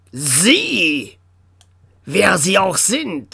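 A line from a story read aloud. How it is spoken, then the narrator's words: Sharp hiss. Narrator (German): zischte der Oberbürgermeister scharf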